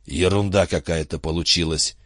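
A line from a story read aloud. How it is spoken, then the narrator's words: Hoarse. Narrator (Russian): хрипло сказал он Рону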